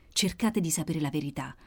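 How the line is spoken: Whispering in ear. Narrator (Italian): sussurrò all'orecchio della mala donna il delegato

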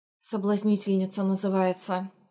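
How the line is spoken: Snort under breath. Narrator (Russian): хмыкнула Ханна под нос

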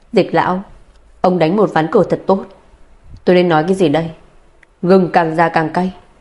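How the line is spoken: Cold. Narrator (Vietnamese): Mộ Tuyết lạnh lùng nói

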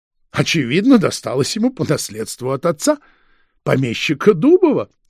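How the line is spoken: Laughing. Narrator (Russian): рассмеялся фон Шпинне

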